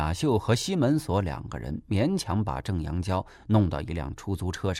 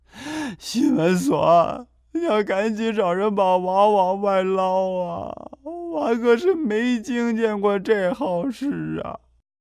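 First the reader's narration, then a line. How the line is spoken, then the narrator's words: Sobbing desperately. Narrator (Chinese): 郑阳娇哭得快昏死过去了，嘴里一个劲儿地说着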